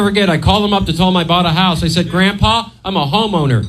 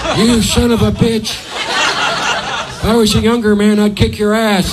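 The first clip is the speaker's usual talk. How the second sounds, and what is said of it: Imitates another person's voice. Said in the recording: “That was an impression of my grandfather.”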